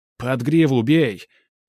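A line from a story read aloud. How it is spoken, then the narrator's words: Shouting. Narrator (Russian): заорал новоиспеченный лидер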